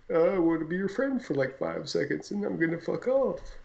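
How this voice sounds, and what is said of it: Playful bumblebee character voice. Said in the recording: “Is that your bumblebee impression?”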